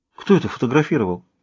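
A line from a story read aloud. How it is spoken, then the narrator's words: Frightened question. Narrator (Russian): испуганно спросила Шэрон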